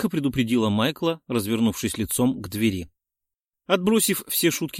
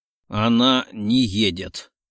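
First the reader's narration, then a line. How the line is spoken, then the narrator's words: Sudden growl. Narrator (Russian): Вдруг передумал, прорычав мне в спину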